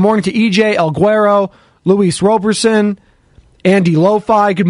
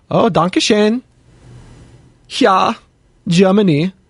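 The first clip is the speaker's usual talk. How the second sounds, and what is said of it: Bad put-on German accent. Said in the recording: “I always get into my German accent here... Let me know how good my accent is there. It's pretty bad.”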